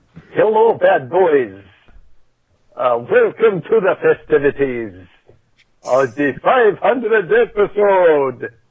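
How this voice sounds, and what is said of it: Put-on Dracula accent. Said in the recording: “I I don't know what this accent is. ... it's, it's Dracula.”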